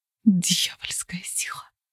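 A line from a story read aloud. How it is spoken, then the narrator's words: Mother's whisper. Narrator (Russian): прошептала мать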